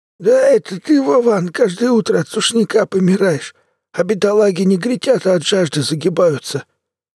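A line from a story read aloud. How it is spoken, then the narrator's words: Creaky, grating voice. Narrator (Russian): проскрипел, как ржавая дверь, Толян, краснолицый с большим пузом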